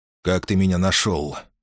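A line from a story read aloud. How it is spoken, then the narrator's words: Calm question. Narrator (Russian): спокойно спросил Максим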